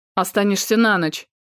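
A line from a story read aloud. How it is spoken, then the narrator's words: Sharp. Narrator (Russian): произнес медведь резко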